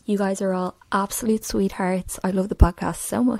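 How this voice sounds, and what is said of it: Striking regional accent. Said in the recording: “What an accent.”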